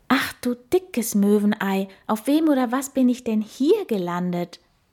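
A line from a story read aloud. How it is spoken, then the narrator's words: Asked loudly. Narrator (German): fragt er laut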